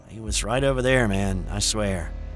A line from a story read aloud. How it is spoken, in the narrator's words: sighed heavily in defeat and said